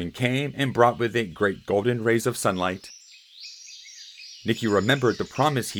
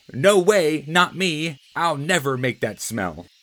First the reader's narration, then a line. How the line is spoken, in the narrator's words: Nicki cried